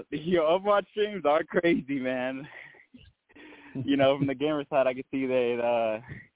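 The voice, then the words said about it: Out of breath, breathy speech. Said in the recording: “I'm a little out of breath. I just busted my ass.”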